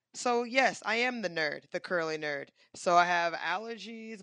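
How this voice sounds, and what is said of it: Congested, hoarse voice. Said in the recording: “My nose is stuffed up. My voice is gone.”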